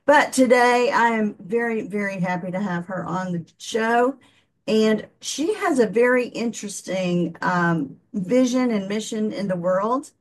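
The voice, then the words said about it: Southern US accent. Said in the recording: “I'm from the South. We are not known for our diction down here in the Southern United States. We have a bad accent anyway.”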